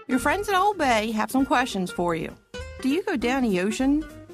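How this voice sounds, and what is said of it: Strong Baltimore accent. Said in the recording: “a real authentic Balmer accent”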